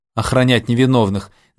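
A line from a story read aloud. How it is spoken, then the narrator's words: Mocking, agent. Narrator (Russian): насмешливо сказал агент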